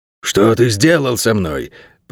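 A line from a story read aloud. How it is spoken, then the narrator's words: Hoarse rasp, dog. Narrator (Russian): прохрипел черно-подпалый пес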